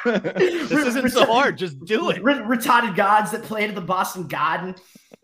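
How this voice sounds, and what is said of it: Put-on Boston accent. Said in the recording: “There you go. You're getting it. ... I could do a better Boston accent than you.”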